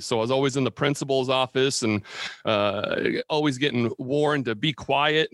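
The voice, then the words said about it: Booming radio-announcer voice. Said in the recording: “radio voice? Because you do have a heck of a radio voice. ... it seems like you can just hear your voice and tell you're on radio. ... my voice carries”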